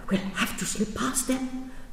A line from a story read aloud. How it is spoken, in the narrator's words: whispered